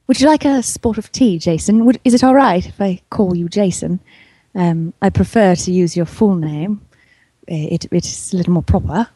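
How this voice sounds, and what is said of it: Posh British Queen's English accent. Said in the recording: “Do the Queen's English for us. Good and proper.”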